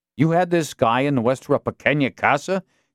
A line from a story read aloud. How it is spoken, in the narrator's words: Castillo snapped at Alex Darby